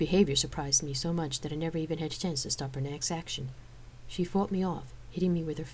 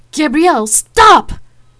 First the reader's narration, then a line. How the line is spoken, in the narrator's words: yelled